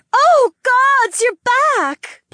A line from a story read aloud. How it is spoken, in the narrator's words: Polina cried out